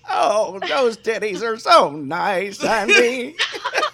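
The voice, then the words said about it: Old lady voice. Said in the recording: “I do an old lady voice.”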